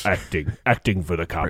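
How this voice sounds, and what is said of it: Michael Caine impression. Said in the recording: “do Michael Caine impression ... I would love to see you do a Michael Caine impression ... That's pretty good.”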